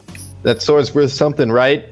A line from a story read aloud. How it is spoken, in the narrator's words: I shout to Bryn